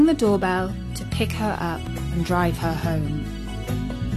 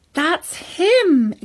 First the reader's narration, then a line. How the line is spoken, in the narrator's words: exclaimed Katie